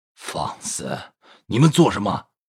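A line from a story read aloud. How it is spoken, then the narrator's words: Sharp rebuke. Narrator (Chinese): 喝止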